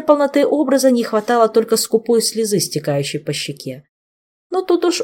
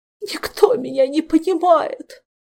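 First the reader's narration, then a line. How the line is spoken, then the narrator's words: Tragic sob. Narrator (Russian): Трагически всхлипнул Нимшаст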